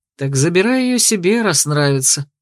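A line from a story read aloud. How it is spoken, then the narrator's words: Grumbling. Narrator (Russian): буркнул Ярти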